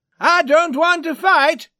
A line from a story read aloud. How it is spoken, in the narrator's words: he shouted